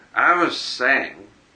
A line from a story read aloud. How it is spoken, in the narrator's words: continued Tom thickly